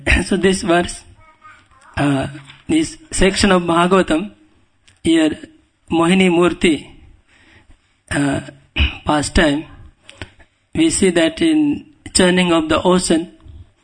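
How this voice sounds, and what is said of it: Indian English accent. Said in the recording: “my accent may be Indian accent. You may not understand. ... Because Indian accent.”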